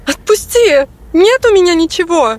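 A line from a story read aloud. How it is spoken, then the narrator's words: Girl's shriek. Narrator (Russian): взвизгнула девушка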